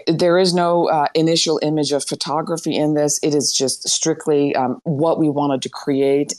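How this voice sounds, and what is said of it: Strained, hoarse voice. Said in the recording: “Sorry, I'm losing my voice. ... I'm losing my voice.”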